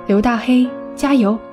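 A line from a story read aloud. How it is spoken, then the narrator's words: Cheering shout. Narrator (Chinese): 我要喊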